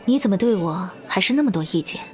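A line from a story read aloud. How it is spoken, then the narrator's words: Soft flirtatious laugh. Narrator (Chinese): 段嘉许轻笑了一声，语气温柔的像是在调情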